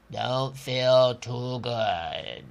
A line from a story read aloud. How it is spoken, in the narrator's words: said in a weak voice